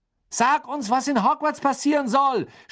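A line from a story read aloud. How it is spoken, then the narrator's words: Shout from window. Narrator (German): schrie Fred aus dem Fenster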